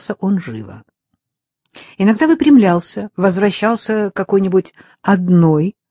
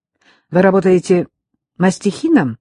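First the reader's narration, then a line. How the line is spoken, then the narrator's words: Curt question. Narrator (Russian): спросила отрывисто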